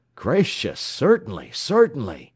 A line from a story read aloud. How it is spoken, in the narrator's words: exclaimed the voice from the window